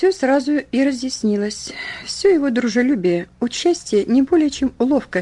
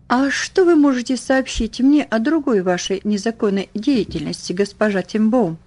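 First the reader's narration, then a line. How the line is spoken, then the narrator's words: Plain. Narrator (Russian): спросил он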